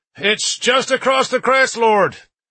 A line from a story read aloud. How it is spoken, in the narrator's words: my guide shouted at me